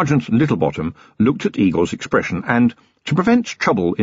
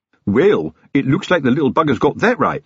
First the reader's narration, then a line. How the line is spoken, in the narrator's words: said Fred cheerfully